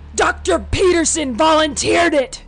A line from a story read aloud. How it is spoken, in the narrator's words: His shout rattled within the room